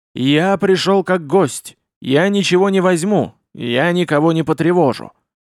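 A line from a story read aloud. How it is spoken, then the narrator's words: Loud voice. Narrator (Russian): громким голосом произнес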